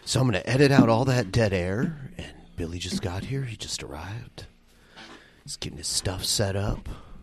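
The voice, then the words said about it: Calm, smooth public-radio voice. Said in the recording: “I'm doing my NPR voice right now.”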